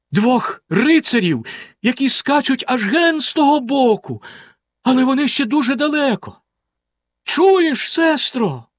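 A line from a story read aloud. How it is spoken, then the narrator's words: Exclamation. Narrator (Ukrainian): вигукнула вона за мить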